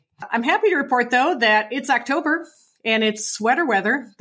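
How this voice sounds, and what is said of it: Slightly congested voice from cold. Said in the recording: “I do have a slight cold, so my apologies if my voice sounds a little funky today.”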